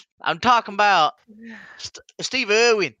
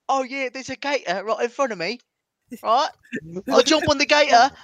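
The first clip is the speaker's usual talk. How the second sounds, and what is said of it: Odd put-on British accent. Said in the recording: “That's British ... That is the weirdest British person ever”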